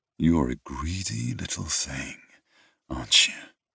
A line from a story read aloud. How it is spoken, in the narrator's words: I murmured